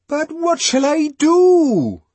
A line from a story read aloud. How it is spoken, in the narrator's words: Bernard wailed